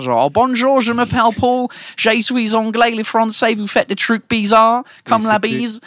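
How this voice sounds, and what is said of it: Fake British accent in French. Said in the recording (French): “monter sur scène en mode britannique ... le faux accent”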